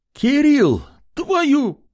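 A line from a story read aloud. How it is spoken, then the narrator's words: Shout abruptly cut off. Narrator (Russian): закричала женщина, открывшая дверь, но, увидев Артема, замолчала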